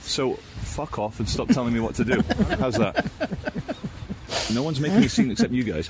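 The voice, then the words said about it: British accent. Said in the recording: “Why does it sound so much classier with that accent? ... A good British”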